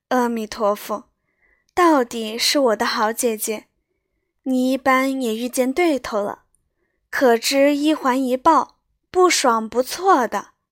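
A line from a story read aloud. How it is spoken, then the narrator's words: Laughing. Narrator (Chinese): 黛玉笑道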